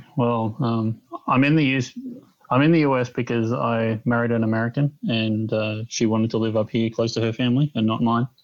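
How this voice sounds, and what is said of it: Australian accent. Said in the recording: “tell by the accent that you're actually an Aussie”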